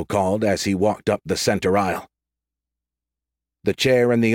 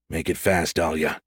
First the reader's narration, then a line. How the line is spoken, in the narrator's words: he growled